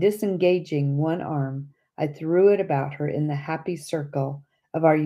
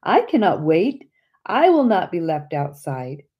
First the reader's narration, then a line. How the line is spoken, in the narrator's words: my sister exclaimed with a happy laugh